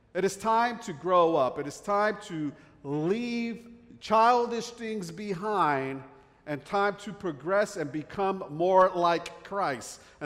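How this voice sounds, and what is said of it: New Jersey accent. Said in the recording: “I have this Jersey accent”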